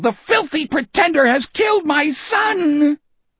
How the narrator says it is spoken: Osmond wail

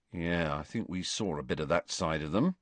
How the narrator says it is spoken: said Ron in an undertone

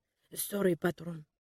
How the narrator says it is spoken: mumbled

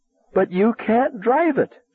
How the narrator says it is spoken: she wailed

